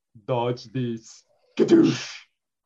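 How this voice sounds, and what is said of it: Put-on Austrian accent. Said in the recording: “an Austrian accent”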